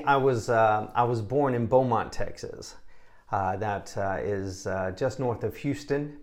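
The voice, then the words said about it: Noticeable accent. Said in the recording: “I like your accent.”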